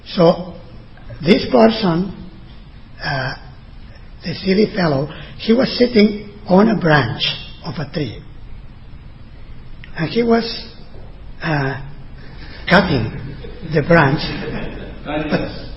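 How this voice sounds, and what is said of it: Spanish accent in English. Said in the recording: “my Spanish accent. So if it's not so Australian”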